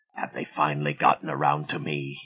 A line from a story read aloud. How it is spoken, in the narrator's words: he whispered